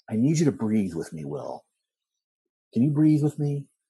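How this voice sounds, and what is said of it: Typical psychologist voice impression. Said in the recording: “he'd do like the typical like psychologist voice ... That's a good impression. ... He'd do that kind of voice”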